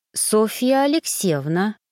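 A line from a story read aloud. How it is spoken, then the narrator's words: Slow speech. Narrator (Russian): медленно произнесла я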